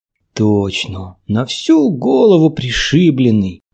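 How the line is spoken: Young woman's exclamation. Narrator (Russian): воскликнула девушка

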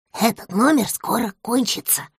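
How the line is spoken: Little dog whispering. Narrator (Russian): прошептала собачка

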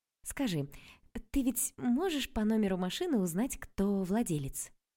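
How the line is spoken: Cooed. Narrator (Russian): проворковала я

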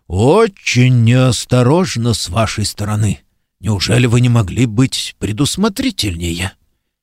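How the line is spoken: Muttered into ear. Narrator (Russian): Ильдефонс пробормотал на ухо Вермулиану

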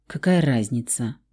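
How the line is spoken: Muttered. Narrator (Russian): буркнул он

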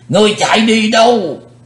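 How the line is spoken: Old man roaring loudly. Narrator (Vietnamese): lão thủ tịch hộ pháp gầm to lên

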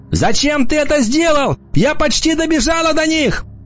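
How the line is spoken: Clinging, shouting. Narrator (Russian): она вцепилась в меня и закричала

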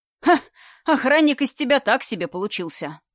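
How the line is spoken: Chuckling. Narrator (Russian): хохотнул Иваныч

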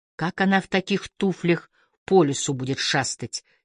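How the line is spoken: Angry muttering. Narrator (Russian): сердито пробормотал Гордон

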